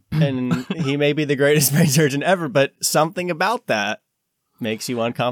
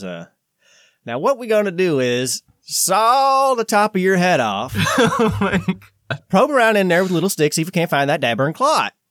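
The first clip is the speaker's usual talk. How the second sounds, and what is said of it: Southern-accented brain surgeon impression. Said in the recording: “something about the Southern accent, you really, it's not great for everything, you know. And he did an impersonation of a brain surgeon”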